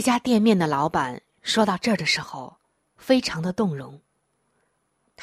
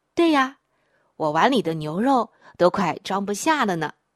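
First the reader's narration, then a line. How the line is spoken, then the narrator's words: Laughing. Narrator (Chinese): 儿子笑着说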